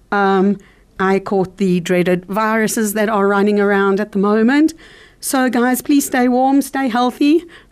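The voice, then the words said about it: Hoarse, husky voice. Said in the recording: “my very hoarse, husky voice”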